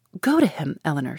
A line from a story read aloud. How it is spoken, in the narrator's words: she cried, as soon as she could speak